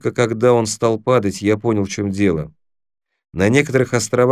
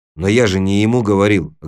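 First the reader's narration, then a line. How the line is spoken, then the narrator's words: Snapping back. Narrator (Russian): огрызнулся Тимур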